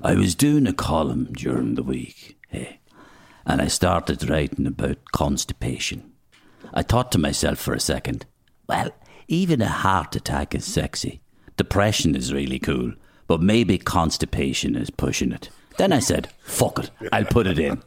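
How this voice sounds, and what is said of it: Imitates another person's voice. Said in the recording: “Can I do your voice? ... I'll try and do it.”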